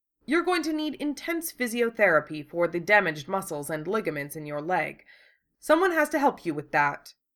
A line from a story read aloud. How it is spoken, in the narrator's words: Un pointed out impatiently